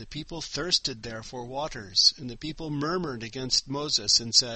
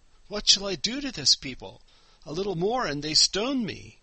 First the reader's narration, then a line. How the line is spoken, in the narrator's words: Moses cried to Yehoah, saying